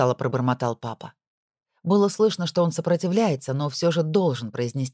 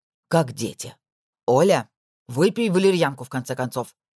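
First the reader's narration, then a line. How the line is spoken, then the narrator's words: Angry. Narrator (Russian): зло произнес он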